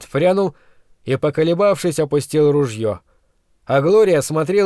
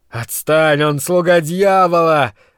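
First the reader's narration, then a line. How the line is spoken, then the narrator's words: Yelling. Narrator (Russian): заорал Брент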